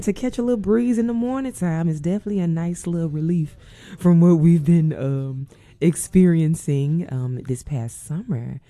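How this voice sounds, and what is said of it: Slightly congested voice. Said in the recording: “tell in my voice, but it's a little congested over here”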